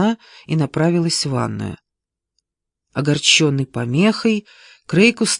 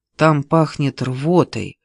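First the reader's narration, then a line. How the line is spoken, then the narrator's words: Grumbling mutter. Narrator (Russian): пробурчала она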